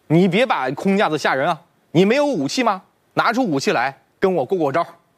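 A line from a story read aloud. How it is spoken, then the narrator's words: Loud voice. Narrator (Chinese): 子路 气势一下子就矮了一截 大声说道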